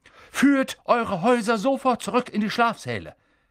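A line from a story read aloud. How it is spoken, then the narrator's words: Blustering. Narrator (German): polterte er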